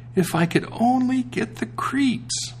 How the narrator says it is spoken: said quite sadly

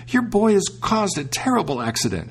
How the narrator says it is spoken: she cried out

